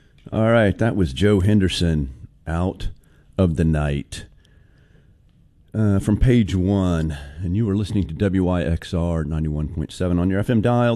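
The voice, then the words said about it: Slightly hoarse voice. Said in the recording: “I'm a little under the weather, a little hoarse, and I might do some coughing while I'm talking.”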